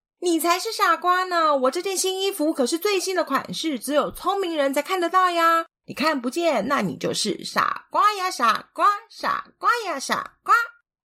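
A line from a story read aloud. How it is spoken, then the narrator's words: Loud child's yelling. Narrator (Chinese): 小男孩的大声嚷嚷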